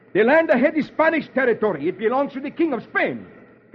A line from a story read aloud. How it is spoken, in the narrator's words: The Spanish leader roars